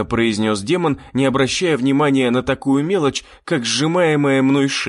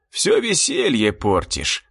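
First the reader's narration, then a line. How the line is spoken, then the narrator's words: Sigh. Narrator (Russian): вздохнул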